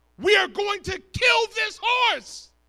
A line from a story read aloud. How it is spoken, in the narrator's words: shouted